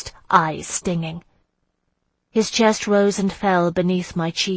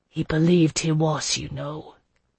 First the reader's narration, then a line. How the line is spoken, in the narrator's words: Jocelyn said in a low voice